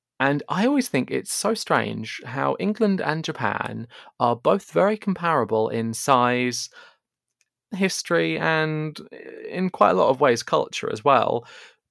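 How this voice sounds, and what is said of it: English accent. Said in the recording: “I'm sure the listeners can guess from my accent, but I am English.”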